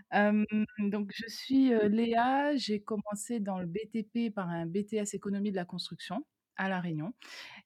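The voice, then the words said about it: Réunion French accent, dropped Rs. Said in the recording (French): “je suis rayonnaise, je pense qu'on doit l'entendre à mon accent... tous les R, je ne les prononce pas”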